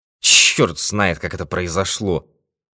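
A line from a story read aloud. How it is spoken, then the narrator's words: Furious grumble with sigh. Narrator (Russian): проворчал в ярости, со вздохом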